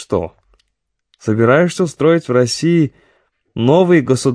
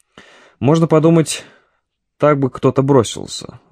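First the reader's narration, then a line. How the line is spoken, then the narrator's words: Sighing. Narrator (Russian): вздохнул Рублев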